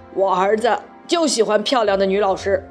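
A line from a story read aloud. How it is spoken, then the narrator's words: Emphatic. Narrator (Chinese): 马天笑先生强调说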